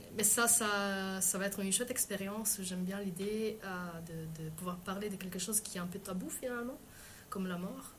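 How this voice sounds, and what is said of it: Foreign accent in French. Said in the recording (French): “j'ai un accent en français ... l'accent étranger”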